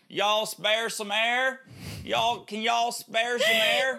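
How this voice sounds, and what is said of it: Bad put-on Kentucky accent. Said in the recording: “That's ... Tennessee accent... No, Kentucky... It's my Kentucky accent... I know they're bad”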